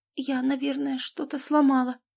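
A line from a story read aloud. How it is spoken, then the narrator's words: Frightened whisper. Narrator (Russian): испуганно прошептала она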